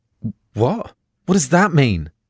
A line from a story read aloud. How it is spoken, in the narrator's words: I can hear my voice rising already